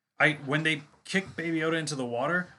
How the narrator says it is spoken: I gasped

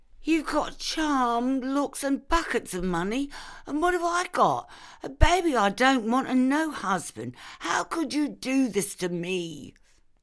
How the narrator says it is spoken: Jude's pregnant girlfriend sobbed

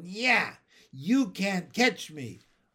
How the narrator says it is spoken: Davy yelled

